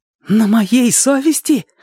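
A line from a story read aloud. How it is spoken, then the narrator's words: Furious exclamation. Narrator (Russian): воскликнул Мэтчем яростно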